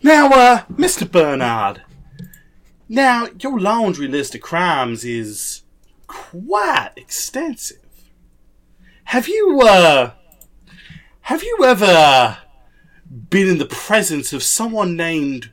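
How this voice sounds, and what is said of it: Southern drawl. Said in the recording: “my southern drawl ... blame your drawl ... my regional accent”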